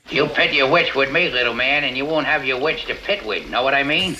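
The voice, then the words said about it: Peter Falk doing Humphrey Bogart impression. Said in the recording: “Peter Falk doing ... A great Humphrey Bogart impersonation in Murder by Death”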